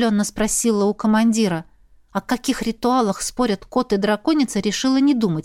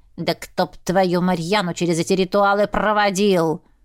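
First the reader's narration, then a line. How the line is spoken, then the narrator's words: Hissing. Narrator (Russian): зашипела Пра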